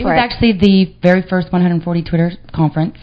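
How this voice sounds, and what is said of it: Texan Southern accent. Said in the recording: “I love the accent, by the way. you're from Texas.”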